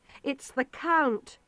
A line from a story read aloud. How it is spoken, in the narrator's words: Jonathan cried